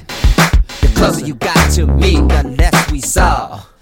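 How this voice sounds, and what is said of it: Imitates another person's rapping voice. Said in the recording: “my best Prince rap impression”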